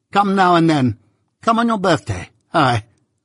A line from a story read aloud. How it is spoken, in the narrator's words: she cried, suddenly turning herself and her chair towards me